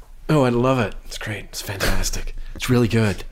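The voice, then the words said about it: Cheesy radio DJ-style voice. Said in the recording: “Were you being Trump for a brief moment? Is that the world's worst Trump impression? ... No, it's like the sort of the, I don't know, some sort of like WKRP type guy.”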